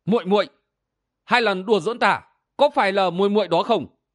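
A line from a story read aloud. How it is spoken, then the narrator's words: Angry shouted question. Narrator (Vietnamese): sắc mặt y bừng bừng giận dữ, quát hỏi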